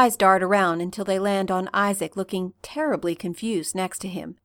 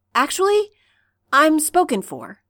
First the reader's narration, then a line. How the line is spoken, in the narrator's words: Stiles blurts out